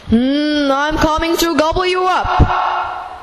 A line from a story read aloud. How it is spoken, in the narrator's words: roared the troll